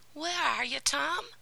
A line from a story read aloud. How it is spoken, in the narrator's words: cried